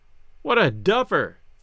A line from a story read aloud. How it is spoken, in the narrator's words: Gus cried